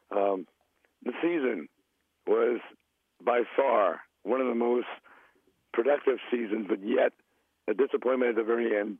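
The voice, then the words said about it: Hoarse, nearly lost voice. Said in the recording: “I lost my voice, so you got to bear with me”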